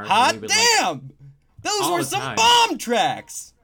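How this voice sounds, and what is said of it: LA radio DJ voice. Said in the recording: “You sound like an LA DJ right now.”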